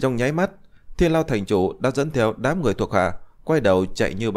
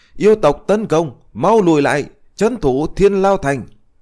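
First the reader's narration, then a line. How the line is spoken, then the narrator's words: Startled old man shouting. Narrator (Vietnamese): lão thành chủ Thiên Lao Thành thấy thiếu nữ áo trắng thì lập tức giật mình hét lớn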